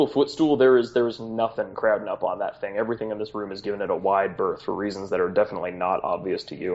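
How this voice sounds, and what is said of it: Usual voice. Nothing is said of it.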